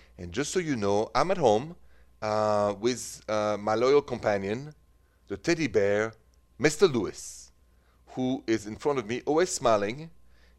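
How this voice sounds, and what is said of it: French accent. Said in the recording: “The accent is French.”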